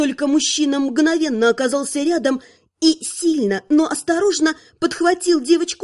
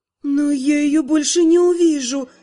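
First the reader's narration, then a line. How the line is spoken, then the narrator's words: Sighing queen. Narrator (Russian): вздохнула королева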